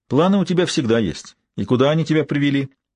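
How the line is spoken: Noisy sigh. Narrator (Russian): Джеки шумно вздохнула

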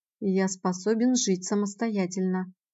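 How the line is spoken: Quiet, slow repetition. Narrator (Russian): негромко и неспешно повторил

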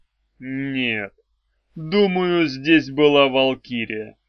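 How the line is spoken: Gloomy. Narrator (Russian): мрачно сказал

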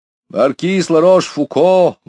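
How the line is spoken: Loud footman announcement. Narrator (Russian): громко произнес лакей

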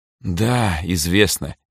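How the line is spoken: Heavy sigh. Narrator (Russian): тяжело вздохнул Эрнесто

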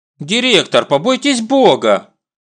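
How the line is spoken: Indignant exclamation. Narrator (Russian): возмущенно восклицаю я

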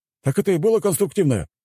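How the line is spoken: Aristocrat's exclamation. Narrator (Russian): воскликнул кто-то из аристократов

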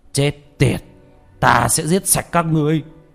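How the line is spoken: Loud shout. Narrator (Vietnamese): Thiên Long đạo nhân hét to

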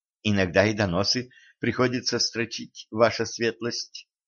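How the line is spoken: Timid young man. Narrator (Russian): робко признался юноша

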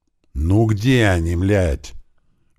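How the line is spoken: Hissing through teeth. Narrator (Russian): прошипел сквозь зубы Слива

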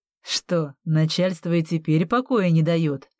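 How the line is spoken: Smirking snort. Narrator (Russian): хмыкнул Нивс

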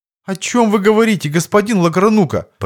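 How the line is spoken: Flustered clerk's babble. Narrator (Russian): пролепетал растерянный приказчик

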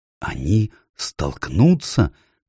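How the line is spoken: Awed whisper. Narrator (Russian): в благоговейном страхе прошептал Каспиан

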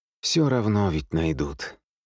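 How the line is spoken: Resigned sigh. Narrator (Russian): вздохнул Михаил

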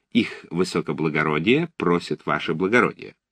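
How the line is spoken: Respectful yet insolent. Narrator (Russian): Он сказал почтительным тоном, но в то же время дерзко

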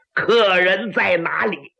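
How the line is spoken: Talking and laughing. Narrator (Chinese): 有人连说带笑

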